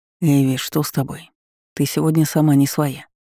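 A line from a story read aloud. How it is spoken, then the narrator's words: Quiet question close to ear. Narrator (Russian): Склонившись к моему уху, негромко спросил Кайден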